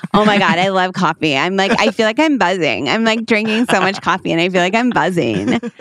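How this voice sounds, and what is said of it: Impression of a young girl's voice. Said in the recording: “That's my impression of the girl. ... Sometimes I'm a real theater kid on here”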